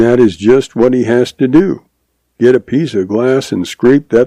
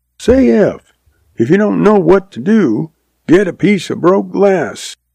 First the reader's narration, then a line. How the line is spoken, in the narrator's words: she hollered back